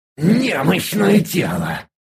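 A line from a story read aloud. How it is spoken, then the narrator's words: Hoarse rasp through teeth. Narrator (Russian): прохрипел сквозь зубы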